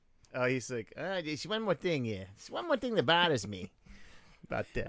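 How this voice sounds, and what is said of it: Columbo impression. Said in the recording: “what was Columbo saying? ... That's better than your impression”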